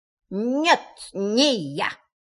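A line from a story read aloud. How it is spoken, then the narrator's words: Rabbit, strangely altered voice. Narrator (Russian): сказал кролик совершенно не своим голосом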